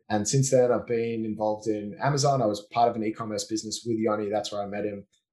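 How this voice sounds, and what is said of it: Australian accent. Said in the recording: “I grew up in Australia until I was 19, born and bred, and that's my accent”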